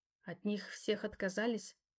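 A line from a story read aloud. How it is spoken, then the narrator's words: Quiet clarifying question. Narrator (Russian): тихо уточнила я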